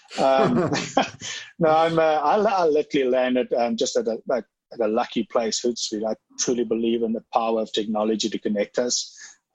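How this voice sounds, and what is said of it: Canadian accent. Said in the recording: “As you can hear, this accent is Canadian.”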